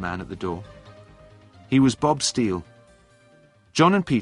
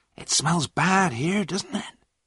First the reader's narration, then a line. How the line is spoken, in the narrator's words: John whispered to Peter